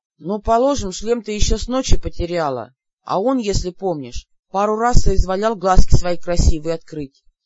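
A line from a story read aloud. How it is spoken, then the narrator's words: Unsurprised demon grumbling. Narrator (Russian): проворчал демон, ничуть не удивившись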